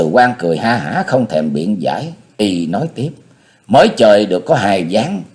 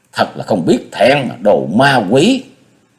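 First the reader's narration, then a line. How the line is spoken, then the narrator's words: Sharp irritated snap. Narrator (Vietnamese): Thạch Xuyên gắt một cái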